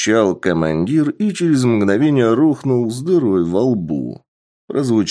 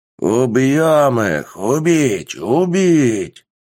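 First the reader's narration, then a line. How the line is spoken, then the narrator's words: Warrior's howl. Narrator (Russian): взвыл воин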